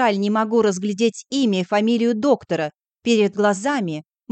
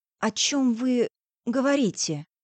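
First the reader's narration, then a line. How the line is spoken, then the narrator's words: Hoarse exhaled voice. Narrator (Russian): Хриплю на выдохе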